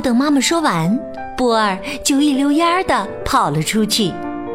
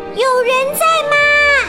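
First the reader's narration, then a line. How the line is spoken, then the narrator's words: Calling into cave. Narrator (Chinese): 波儿冲洞里喊道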